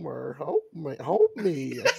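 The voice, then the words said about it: Marge Simpson impression. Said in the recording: “his Marge Simpson voice ... You sound a lot like Marge ... It's perfect.”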